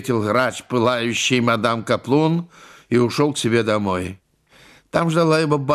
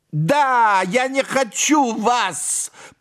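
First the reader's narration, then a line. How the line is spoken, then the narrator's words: Agitated shout. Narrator (Russian): прокричала тогда мадам Каплун, вся пылая, с волнующейся грудью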